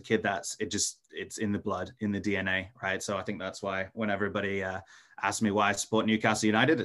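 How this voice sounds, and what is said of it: Mixed Scottish-European accent. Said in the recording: “I've got kind of this hodgepodgey accent ... both my parents are, are, Scottish, and you know we lived in in Europe for a while”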